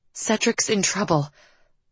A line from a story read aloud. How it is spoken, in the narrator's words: Liv breathed out